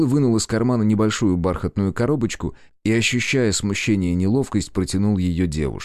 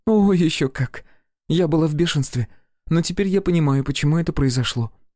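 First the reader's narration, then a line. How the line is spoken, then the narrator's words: Admitting with a sigh. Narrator (Russian): призналась она и вздохнула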